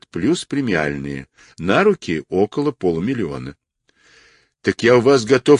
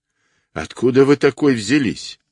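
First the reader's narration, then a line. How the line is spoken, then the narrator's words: Laughing. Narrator (Russian): Она рассмеялась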